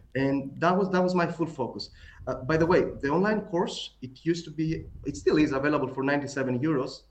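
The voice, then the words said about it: Greek accent. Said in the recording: “my Greek accent”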